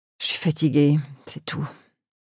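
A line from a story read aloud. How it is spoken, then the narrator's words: Murmured. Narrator (French): murmura-t-il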